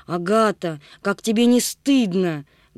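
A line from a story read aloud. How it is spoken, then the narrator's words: Loud, then angry whisper. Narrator (Russian): громко сказала и потом сердито прошептала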